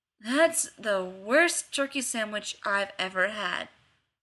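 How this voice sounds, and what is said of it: Slurred drawl. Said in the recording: “came a slurred drawl”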